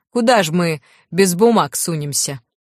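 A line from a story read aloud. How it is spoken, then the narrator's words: Sudden sharp chuckle. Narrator (Russian): Лю неожиданно резко хохотнул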